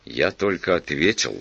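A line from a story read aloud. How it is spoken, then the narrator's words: Even voice. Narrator (Russian): сказал он ровным голосом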